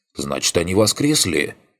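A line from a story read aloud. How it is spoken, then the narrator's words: Gardener's skeptical snort. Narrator (Russian): хмыкнул садовник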